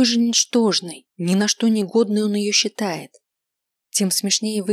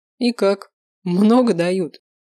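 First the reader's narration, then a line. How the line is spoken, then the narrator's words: Scoffing grunt. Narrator (Russian): хмыкнул он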